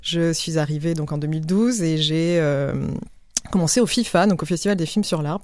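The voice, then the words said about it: French accent from France. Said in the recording (French): “Mon accent me trahit, mais donc je viens de France.”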